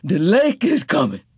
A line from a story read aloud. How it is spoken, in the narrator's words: Tea Cake gasped